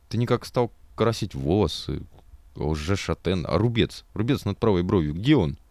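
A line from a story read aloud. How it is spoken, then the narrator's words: Voice dropping to whisper. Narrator (Russian): Его голос вдруг сел до шепота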